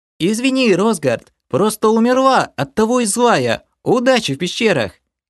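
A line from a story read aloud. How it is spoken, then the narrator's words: Calling after. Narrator (Russian): крикнула мне вслед девушка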